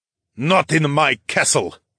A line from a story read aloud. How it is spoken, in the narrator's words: Cairo spat out